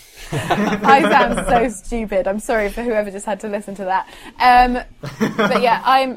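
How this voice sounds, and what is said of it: Posh English accent, not quite RP. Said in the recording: “my accent is definitely a notch below that. So when people hear me, they do consider me to be, you know, have a posh accent, but it's not royalty”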